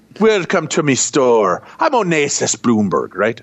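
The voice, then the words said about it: Put-on Scottish-Jamaican pirate-like accent. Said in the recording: “I was doing like a Scottish Jamaican accent there... Little pirate, too. There's a little pirate there.”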